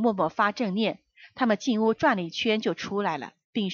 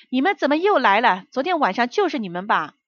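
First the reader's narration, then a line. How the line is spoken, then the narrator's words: Anxious shout from afar. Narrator (Chinese): 我丈夫 急了，老远就喊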